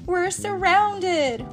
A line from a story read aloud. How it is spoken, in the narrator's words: Wonder Woman shouted